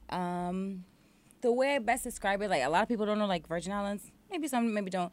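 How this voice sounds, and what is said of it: Caribbean island accent. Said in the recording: “Do people tell you that they love your accent all the time? ... it's my accent ... sometimes I, like, actually, like, try to kind of hide it a little ... some words I just can't, like, say different”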